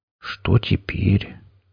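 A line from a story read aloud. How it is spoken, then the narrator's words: Quiet deflated whisper. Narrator (Russian): тихо прошептал грозный пират, у которого уже давно пропало всевозможное героическое настроение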